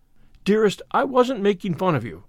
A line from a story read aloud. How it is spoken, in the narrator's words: cried Anne repentantly